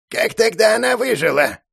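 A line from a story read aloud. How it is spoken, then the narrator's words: Old man's creaky voice. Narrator (Russian): проскрипел старец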